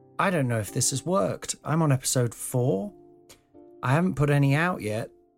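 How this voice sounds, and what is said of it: Slightly croaky voice. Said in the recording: “my voice is a little bit croaky”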